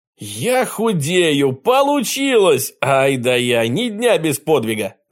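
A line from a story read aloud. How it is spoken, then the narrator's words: Ecstatic shout. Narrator (Russian): закричал Жюль Верн и запрыгал было от восторга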